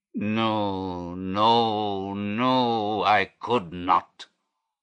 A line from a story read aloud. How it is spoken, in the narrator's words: he groaned